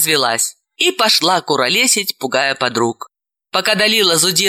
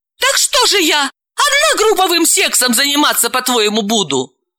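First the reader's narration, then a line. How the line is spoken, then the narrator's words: Desperate exclamation. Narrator (Russian): В отчаянии, Галина воскликнула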